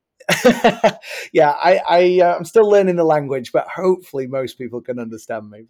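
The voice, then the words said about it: English accent. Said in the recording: “I am originally from England, so I acknowledge I have an accent”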